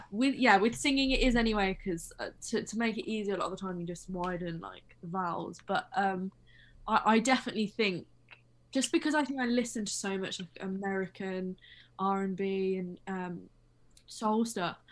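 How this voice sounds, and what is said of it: Noticeable non-American accent. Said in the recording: “you have an accent, right? It's undeniable. You have an accent.”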